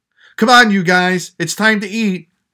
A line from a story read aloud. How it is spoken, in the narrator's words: his mom yelled up to them